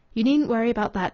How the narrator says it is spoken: said Rachel

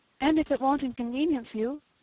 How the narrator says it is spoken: said Cecily timidly

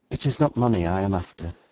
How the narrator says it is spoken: she said

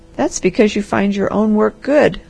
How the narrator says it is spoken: laughed the harvester

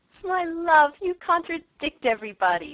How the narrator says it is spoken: said his wife, with her usual laugh

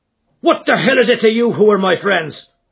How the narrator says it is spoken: roared McMurdo in a voice which brought every head in the carriage round

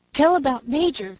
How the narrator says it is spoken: cried the boys, impatient for the catastrophe

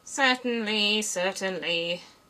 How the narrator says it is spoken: the king muttered

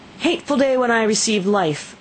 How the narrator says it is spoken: exclaimed in agony

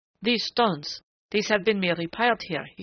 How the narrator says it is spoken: he cried excitedly

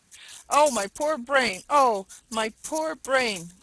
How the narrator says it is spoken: cried the jackal

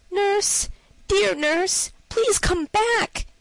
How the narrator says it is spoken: he called out

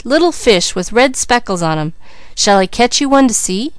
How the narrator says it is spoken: he cried

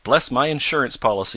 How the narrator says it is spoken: exclaimed Mr

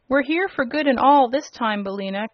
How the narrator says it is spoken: cried Dorothy joyfully

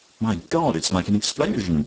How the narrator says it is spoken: cried Sir Walter

